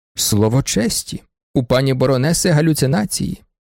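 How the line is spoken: Plain. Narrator (Ukrainian): сказав Малеський

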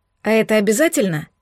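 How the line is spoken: Hesitant stammer. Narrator (Russian): неуверенно заикнулась

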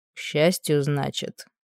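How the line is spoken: Gloomy remark. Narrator (Russian): мрачно заметил он

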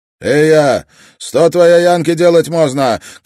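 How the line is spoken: Shouted. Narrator (Russian): крикнул он этому Куле

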